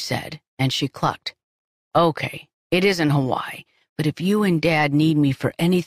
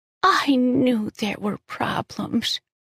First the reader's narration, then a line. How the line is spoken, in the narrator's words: she said, her voice so strained